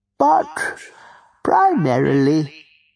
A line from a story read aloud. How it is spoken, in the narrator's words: he said in his former wistful tone